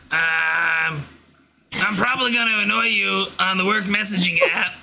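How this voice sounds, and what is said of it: Deliberately annoying put-on voice. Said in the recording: “What's your annoying voice sound like? Do you want to read this in your annoying voice?”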